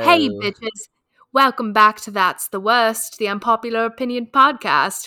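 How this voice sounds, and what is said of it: Put-on British accent, fairly convincing. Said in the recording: “Now try and do it in a British accent. ... When else did you do that accent? ... That's pretty good”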